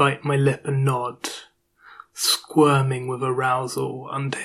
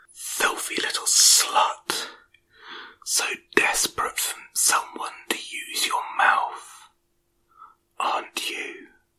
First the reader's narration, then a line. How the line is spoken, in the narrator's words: whispers in my ear